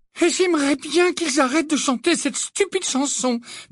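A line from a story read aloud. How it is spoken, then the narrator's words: Distressed. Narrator (French): dit Hermione d'un ton affligé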